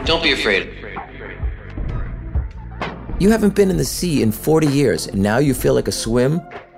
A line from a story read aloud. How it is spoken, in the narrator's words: Her anger turns to laughter in less time than it takes for her to complete the sentence